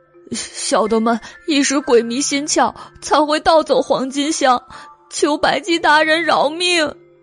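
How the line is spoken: Crying plea. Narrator (Chinese): 黑梨花猫哭道

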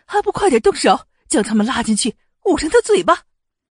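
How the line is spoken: Cold anger. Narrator (Chinese): 世子夫人 听着后面谈论阮府跟淮阴侯府的点点滴滴，脸色非常暗沉，冷怒道

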